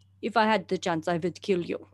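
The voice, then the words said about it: Russian accent. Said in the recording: “in like a Russian accent.”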